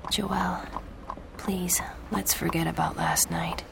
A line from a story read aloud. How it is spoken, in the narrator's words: he whispered